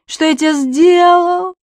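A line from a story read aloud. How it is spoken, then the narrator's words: Sobbing. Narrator (Russian): рыдает Префен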